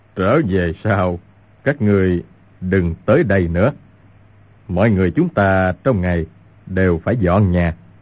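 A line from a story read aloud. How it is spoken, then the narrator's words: Smiling. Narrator (Vietnamese): Nhất Đăng mỉm cười nói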